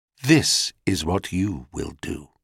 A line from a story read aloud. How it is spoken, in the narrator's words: she said quite calmly to the traumatized maid